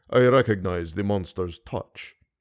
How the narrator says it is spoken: he said with a deep sigh

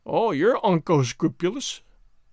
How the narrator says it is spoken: sneered Alan

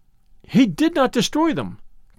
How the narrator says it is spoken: cried Lucia

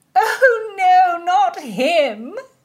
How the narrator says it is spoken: Cecilia laughed

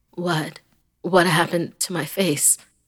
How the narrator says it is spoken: Jeff asked

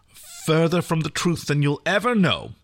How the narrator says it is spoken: Erin snapped

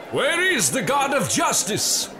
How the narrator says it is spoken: They cried

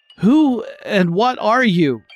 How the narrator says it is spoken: he cried out

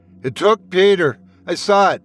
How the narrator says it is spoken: Trevor said, his voice trembling with fear

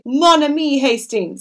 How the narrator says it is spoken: he cried

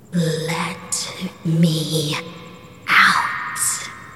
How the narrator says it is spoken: a voice repeatedly whispering

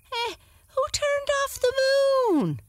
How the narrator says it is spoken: cried Sam

